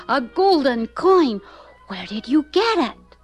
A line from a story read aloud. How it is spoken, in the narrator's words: exclaimed Benji